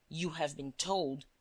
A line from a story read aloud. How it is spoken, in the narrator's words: he said irritably